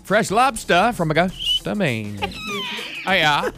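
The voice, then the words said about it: Put-on Maine accent. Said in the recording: “you have to do your Maine accent”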